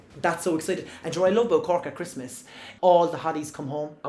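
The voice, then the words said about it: Exaggerated Cork accent. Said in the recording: “She heard the Cork accent.”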